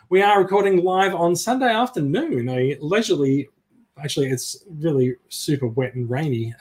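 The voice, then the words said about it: Australian accent. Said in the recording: “with Australian accents”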